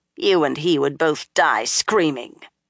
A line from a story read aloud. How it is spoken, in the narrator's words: the blue-eyed Suldam put in harshly